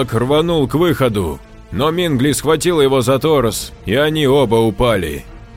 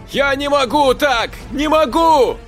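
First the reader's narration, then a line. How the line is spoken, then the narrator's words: Shouting. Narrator (Russian): кричал Жорж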